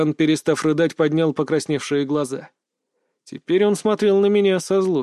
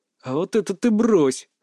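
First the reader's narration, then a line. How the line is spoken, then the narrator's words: Growled. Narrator (Russian): рыкнул я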